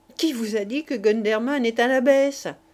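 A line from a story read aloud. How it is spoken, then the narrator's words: Sneering. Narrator (French): dit Pierrot ricanant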